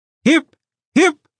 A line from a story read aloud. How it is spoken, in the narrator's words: at the top of his voice, three times